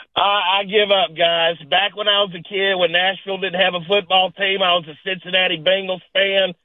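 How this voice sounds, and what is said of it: Noticeable regional accent. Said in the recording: “where are you from originally with this accent?”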